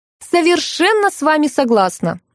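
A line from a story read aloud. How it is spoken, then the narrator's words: Shrill scream. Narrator (Russian): пронзительно завопила Елена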